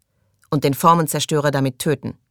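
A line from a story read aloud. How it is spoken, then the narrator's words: Loud. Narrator (German): sagte er laut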